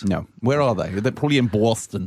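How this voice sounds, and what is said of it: Put-on Boston Southie accent. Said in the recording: “What the hell was that accent? ... my authentic Southie accent? ... I thought it was appalling.”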